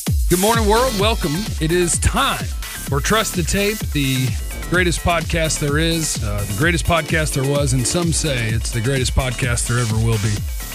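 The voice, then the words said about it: Announcer-style radio voice. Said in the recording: “doing radio voice this morning”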